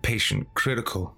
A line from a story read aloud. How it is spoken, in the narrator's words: I mumbled